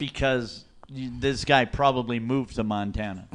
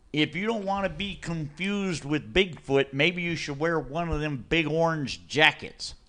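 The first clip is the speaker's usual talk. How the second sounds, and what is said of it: Southern-ish put-on accent. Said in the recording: “a southern-ish kind of accent”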